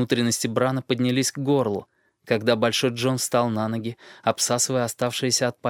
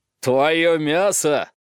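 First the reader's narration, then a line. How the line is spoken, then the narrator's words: Roar. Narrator (Russian): взревел он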